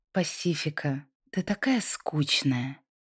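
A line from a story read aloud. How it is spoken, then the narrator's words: Slow mocking drawl. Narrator (Russian): Лайза медленно протянула слова, добавив в них немного насмешки, как будто специально хотела уколоть подругу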